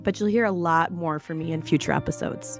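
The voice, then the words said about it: Hoarse voice. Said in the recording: “as you might be able to tell, I'm a little hoarse right now”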